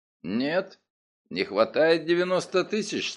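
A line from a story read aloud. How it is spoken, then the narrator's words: Calm reply. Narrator (Russian): спокойно ответил я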